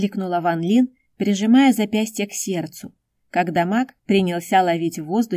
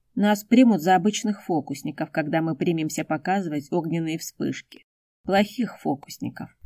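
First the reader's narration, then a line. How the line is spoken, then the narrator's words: Gloomy comment. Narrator (Russian): мрачно прокомментировал представление Хун Синь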